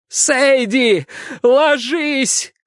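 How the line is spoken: Shout drowned by gunfire. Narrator (Russian): крикнул я, однако мои слова растворились в грохоте выстрела винтовки Освальда

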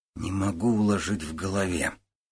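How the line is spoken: Quiet. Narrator (Russian): тихо сказал Женя

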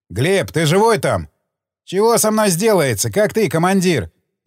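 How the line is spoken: Loud, deafened by gunfire. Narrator (Russian): Он громко, от стрельбы заложило в ушах, спросил

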